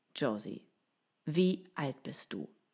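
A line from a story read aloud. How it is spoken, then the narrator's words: Plain. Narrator (German): fragte Josh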